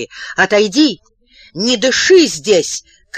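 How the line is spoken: Shouted. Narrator (Russian): крикнул Калабуховой Ани

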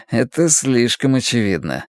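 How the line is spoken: Mutter. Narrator (Russian): пробормотал

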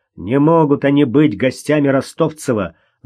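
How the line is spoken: Angry, through gritted teeth. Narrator (Russian): Зло процедил он сквозь зубы

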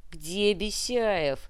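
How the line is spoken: Growled. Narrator (Russian): прорычал Дункан

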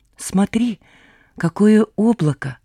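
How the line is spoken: Quiet. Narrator (Russian): тихо сказал Блуд

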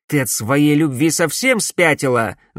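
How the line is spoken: Angry question. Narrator (Russian): злобно осведомился он

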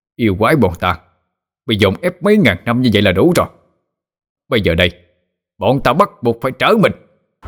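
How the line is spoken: Demons roaring angrily. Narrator (Vietnamese): bọn đại yêu cũng không nhịn nữa mà bộc phát yêu khí cho gào lên

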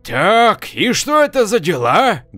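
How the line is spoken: Old man's menacing question. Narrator (Russian): грозно спросил старик

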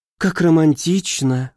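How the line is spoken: Breathed out. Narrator (Russian): выдохнула баронесса

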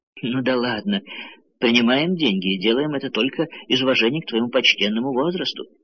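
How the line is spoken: Plain. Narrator (Russian): сказал Го

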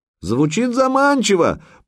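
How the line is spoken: Shouted reply. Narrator (Russian): прокричал в ответ Санек

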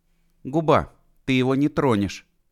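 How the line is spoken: Sudden slightly hoarse voice. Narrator (Russian): сказала вдруг Люсьен чуть хриплым голосом

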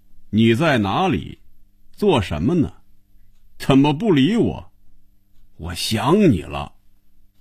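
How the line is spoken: Reading aloud loudly. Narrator (Chinese): 大声念着

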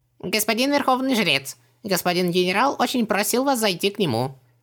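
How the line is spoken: Squeaky little voice. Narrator (Russian): писклявым голоском сообщил посланец

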